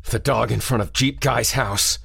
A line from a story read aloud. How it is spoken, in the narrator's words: he croaked